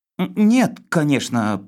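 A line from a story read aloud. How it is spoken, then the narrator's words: Mumbling. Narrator (Russian): промямлил я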